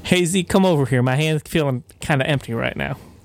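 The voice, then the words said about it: Put-on southern accent. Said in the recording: “Jason Garrett does not have a southern accent at all.”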